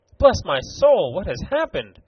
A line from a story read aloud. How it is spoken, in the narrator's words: cried Mr